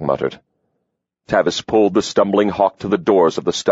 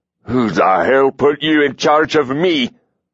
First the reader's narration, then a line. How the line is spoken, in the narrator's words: Hawk roared